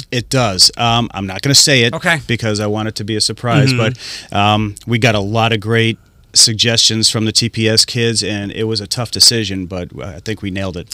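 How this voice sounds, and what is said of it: Boston accent. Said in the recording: “I can hear your Boston accent.”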